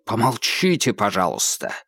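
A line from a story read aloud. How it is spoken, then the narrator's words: Barked. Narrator (Russian): рявкнул Холмс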